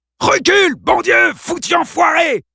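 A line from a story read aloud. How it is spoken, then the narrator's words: Shouting. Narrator (French): cria-t-il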